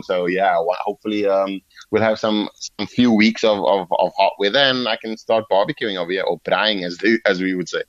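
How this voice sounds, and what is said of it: Slight regional accent. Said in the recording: “you've got a little bit of the accent there”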